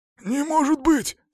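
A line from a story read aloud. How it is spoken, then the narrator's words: Hoarse repetition. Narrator (Russian): сипло повторил он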